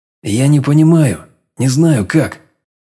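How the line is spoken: Strained, halting. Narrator (Russian): выдавил с трудом, путаясь в мыслях

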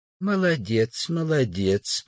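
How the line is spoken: Kind old man's voice. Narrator (Russian): произнес добрым голосом старик

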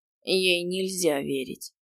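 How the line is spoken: Tired agreement. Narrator (Russian): устало согласился с Элькой Асвард

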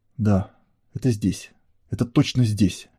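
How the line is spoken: Furious whisper. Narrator (Russian): яростно шептал он

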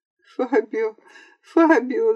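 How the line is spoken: Young woman crying out. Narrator (Russian): закричала девушка

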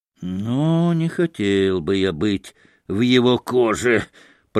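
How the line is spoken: Hissing. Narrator (Russian): прошипел Ракитин

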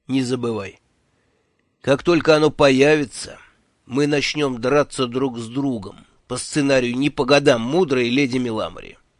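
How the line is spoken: Gloomy. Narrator (Russian): мрачно закончил Джуфин

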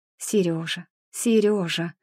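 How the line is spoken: Whisper. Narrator (Russian): По ночам Маша шептала

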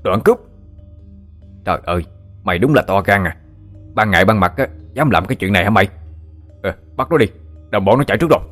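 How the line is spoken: Shout from behind. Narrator (Vietnamese): Lúc này sau lưng có tiếng quát lên

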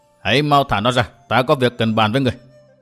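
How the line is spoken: Calm smiling tone. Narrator (Vietnamese): Lạc Tử Khư không hề tỏ ra giận dữ, điềm nhiên tươi cười nói

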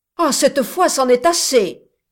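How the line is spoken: Exclaimed. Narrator (French): s'écria le frère Cib

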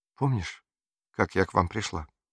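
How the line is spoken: Quiet question. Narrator (Russian): тихо спросила Мария

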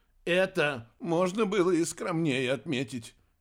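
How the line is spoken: Sarcastic remark. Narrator (Russian): язвительно выдал Рикки

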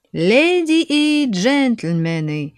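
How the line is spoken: Cheerful shout. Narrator (Russian): весело закричал Абу-эль-Сим

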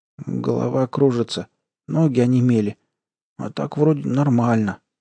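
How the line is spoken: Mumbling. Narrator (Russian): промямлил Айгон

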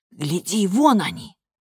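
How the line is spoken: Whispered. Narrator (Russian): Бренда прошептала

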